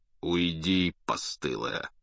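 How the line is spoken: Meek snapping eagle. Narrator (Russian): кротко огрызнулся орел

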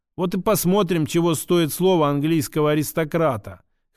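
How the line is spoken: Snorting. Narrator (Russian): хмыкнул

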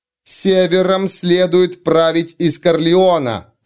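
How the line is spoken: Growled. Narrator (Russian): прорычала Изерн

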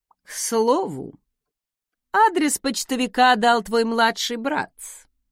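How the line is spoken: Purring. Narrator (Russian): промурлыкал Закари

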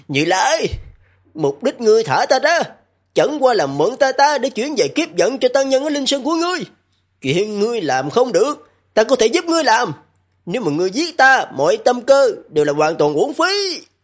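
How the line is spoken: Terrified shout. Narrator (Vietnamese): Tự tại Đại Minh Vương kinh hoàng tột độ, hét lên

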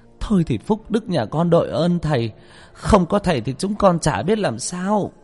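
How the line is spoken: Flustered, effusive mother. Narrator (Vietnamese): người mẹ rối rít

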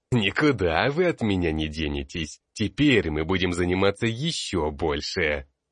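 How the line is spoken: Demonic laughter. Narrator (Russian): Я демонически расхохотался

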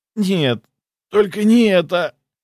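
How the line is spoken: Pleading. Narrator (Russian): взмолился он

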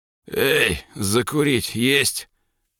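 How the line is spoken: Hoarse, deliberately rude. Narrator (Russian): Сиплым голосом, нарочито нагло и грубо

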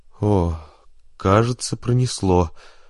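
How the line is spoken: Relieved exhale. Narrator (Russian): выдохнул капитан Ван Борген

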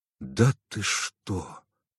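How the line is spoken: Strained, forced out. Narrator (Russian): выдавил я

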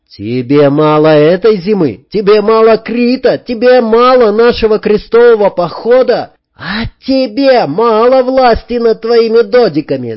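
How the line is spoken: Yelling. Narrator (Russian): заорал Сергей

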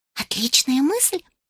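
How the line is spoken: Girl's whispered reply. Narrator (Russian): шепнула в ответ девочка

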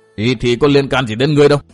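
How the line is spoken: Angry old man scolding. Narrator (Vietnamese): Ông già càng tức giận thêm quát mắng tiếp

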